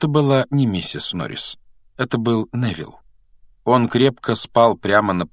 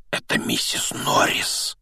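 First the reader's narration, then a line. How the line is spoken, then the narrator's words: Breathless exclamation. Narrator (Russian): выдохнул Рон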